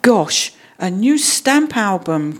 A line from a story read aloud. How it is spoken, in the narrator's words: cried Jonathan